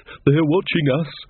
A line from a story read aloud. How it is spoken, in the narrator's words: panted Taylor